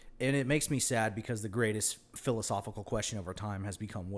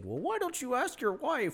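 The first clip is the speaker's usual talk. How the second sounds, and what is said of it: Kermit-like voice, slight Canadian accent. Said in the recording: “That was a good impression. ... It's a combination of like Paul Reiser and fucking Kermit the Frog. ... And with a slight Canadian accent.”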